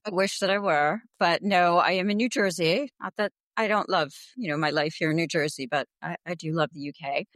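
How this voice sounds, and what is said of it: Non-British accent. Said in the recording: “judging by the accent, you're not over here in the UK”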